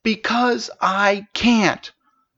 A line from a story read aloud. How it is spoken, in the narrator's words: Princess shouted in frustration